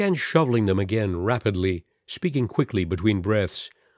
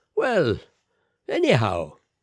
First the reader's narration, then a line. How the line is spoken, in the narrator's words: he said cheerfully